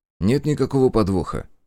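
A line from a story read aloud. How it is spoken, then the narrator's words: Calm reply. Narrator (Russian): ответил я спокойно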